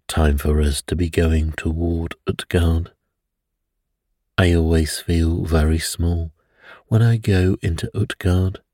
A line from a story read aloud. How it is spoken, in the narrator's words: he said